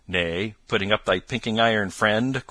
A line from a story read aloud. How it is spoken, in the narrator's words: quoth Robin, with the tears of laughter still in his cheeks